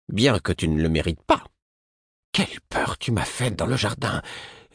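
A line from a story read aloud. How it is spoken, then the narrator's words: Icy tone. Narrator (French): me dit-elle d'un ton glacé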